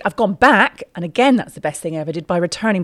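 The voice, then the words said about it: Quirky, hard-to-place accent. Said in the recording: “my accent was a little bit quirky, like it is. Who knows where I'm from? Not even I know where I'm from”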